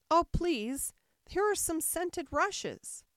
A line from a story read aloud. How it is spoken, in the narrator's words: Alice cried in a sudden transport of delight